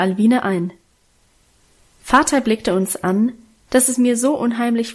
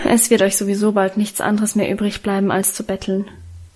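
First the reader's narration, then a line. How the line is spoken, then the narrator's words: Muttered. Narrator (German): murmelte er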